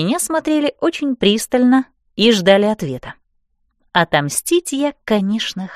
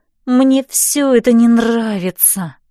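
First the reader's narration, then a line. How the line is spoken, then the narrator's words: Moaned. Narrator (Russian): простонала я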